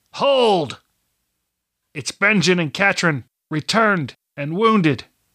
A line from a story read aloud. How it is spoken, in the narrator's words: Benjen barked